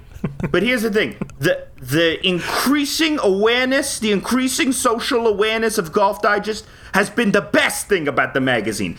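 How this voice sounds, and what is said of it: Rough and tumble accent. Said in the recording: “my rough and tumble accent”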